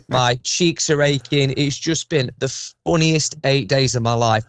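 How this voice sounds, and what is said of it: Hoarse, worn-out voice. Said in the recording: “My voice is gone, as you probably can hear.”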